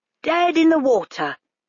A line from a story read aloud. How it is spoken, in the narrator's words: cried the clown triumphantly, sounding as if he were standing right there